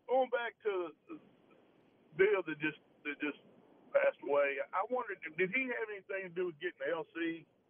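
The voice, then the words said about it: Southern drawl with a twang. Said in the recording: “twang, that southern drawl”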